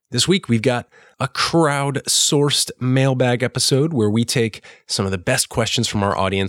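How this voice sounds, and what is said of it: Congested, sick-sounding voice. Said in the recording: “If you can't tell from my voice, I'm a little under the weather ... I can't breathe like a normal person right now”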